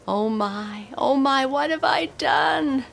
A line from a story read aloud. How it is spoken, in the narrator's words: He wailed